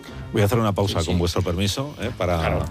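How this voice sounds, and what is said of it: Very serious, formal respectful tone. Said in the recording (Spanish): “estáis poniendo voz muy seria todo el rato ... ¿Qué tono es este? ... Es un tono de respeto ... Un tono como de, un tono de... como si estuviéramos entrevistando”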